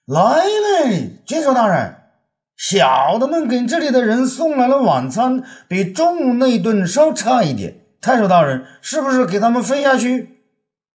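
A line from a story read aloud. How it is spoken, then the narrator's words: Loud shout. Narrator (Chinese): 申猴大声叫道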